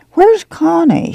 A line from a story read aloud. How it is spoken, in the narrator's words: She asked irritably